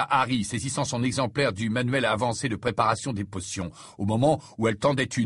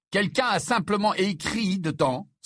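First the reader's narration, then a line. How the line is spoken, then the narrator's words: Exclaimed. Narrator (French): s'exclama Harry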